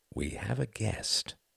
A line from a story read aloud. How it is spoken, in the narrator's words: said Quentin gently